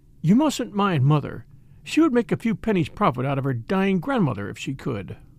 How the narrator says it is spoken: remarking kindly

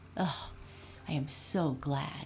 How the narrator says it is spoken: Raggedy Andy said with a sigh of relief

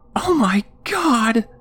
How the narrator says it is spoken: shrieked

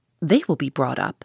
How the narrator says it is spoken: said he in a serious accent

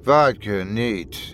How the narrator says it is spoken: he muttered with an inkling of drowsiness

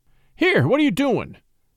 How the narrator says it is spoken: Scott cried suddenly

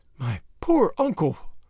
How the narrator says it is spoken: her voice faltered

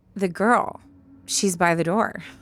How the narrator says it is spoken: he said

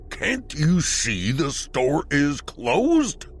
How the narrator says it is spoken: roared the older gentleman

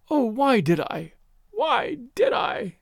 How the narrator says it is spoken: she was moaning

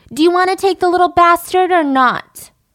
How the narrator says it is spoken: She would shout out the window

